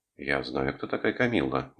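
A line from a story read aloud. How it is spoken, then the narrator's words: Annoyed mutter. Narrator (Russian): буркнул, все еще раздосадованный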